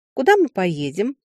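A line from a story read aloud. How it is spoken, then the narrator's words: Ringing little voice asking. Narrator (Russian): звонким голоском спросила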